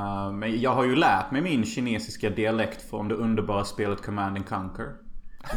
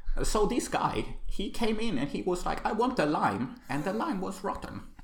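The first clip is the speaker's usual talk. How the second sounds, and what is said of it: Put-on strong Chinese accent in English. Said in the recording (Swedish): “janky English... Med stark eh, kinesisk dialekt. Kan du härma?... det där var till och med bättre än henne.”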